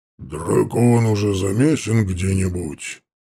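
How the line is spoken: Muffled, huge orc's voice. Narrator (Russian): глухо спросил огромный орк

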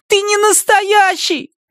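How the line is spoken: Shouted. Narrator (Russian): крикнул я

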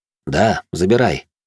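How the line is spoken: Calm reply. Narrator (Russian): спокойно ответил я

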